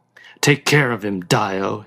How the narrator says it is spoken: he grunted

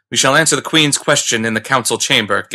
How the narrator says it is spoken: Ganda retorted fiercely

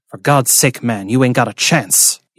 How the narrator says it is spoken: harshly in his ear, Gentry said

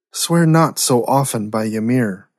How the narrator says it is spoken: uneasily muttered a warrior

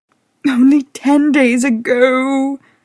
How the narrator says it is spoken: she cooed

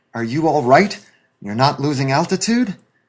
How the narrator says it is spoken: he quavered into the radio transmitter

